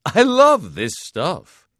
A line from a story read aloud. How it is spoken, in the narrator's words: he exclaimed